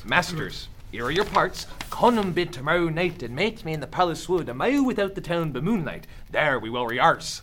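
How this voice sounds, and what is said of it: Shakespearean original pronunciation accent. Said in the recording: “Original pronunciation is the accent that would have been used in Shakespeare's time ... the original pronunciation of early modern English, circa 1600”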